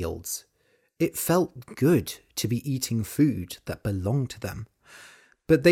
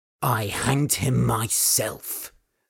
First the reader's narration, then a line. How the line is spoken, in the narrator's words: said Old Man Torsten coldly